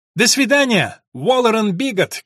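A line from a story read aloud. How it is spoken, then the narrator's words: Shouted. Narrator (Russian): крикнула Эллен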